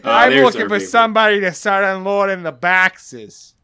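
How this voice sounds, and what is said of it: Put-on accent for burly older man. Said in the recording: “big burly, just like older guy ... the fucking accent”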